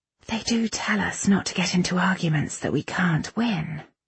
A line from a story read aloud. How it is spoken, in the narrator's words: Irene whispered